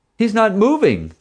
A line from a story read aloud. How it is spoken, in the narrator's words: the groom yelled back